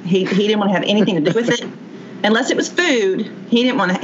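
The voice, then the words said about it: Southern American accent. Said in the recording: “accent ... Just Kentuckian, Southern.”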